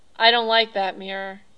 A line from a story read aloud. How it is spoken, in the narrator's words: he said